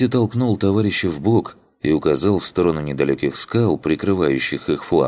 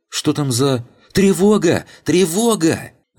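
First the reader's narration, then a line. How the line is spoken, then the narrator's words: Yelled. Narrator (Russian): Заорал он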